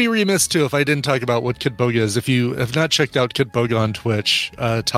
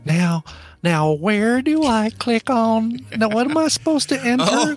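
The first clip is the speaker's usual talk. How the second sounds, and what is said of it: Old lady voice. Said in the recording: “he impersonates, like, this old lady”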